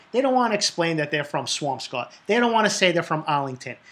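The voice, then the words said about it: Boston accent. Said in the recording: “this accent lets you know I'm from Boston”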